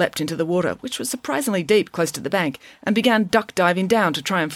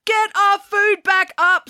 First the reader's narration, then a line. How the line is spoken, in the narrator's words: screamed Jessica